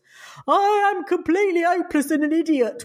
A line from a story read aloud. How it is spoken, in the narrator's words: wailed Will